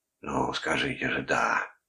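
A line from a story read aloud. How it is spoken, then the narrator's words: Whispered. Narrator (Russian): прошептал Карпински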